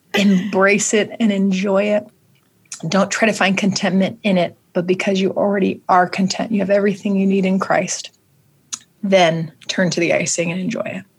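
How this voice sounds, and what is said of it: Choked-up emotional voice. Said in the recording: “getting emotional thinking about it ... Getting a little choked up.”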